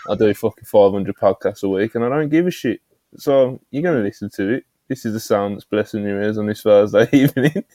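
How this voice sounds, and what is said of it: British Brummie accent. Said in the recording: “I've got a British Brummy accent. One of the worst you can have. And you see, Joe hears it ... some of our US friends don't hear it, and they just hear Brit”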